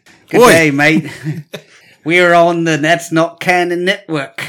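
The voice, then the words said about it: Put-on Australian accent. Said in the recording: “Can you do an Australian accent? ... Nope, that's not it. ... That's pretty close.”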